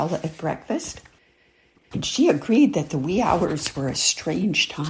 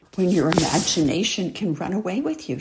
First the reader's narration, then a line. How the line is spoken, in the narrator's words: she said